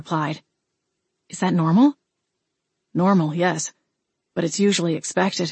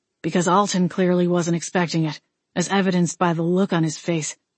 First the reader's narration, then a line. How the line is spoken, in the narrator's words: Wade grumbled